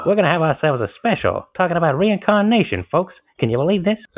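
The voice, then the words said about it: Old-timey 1930s radio host voice. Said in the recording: “you probably were a radio host back in the day. That was a very good impression ... old-timey radio in the 30s”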